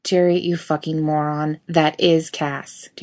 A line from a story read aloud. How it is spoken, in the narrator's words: Jason says flatly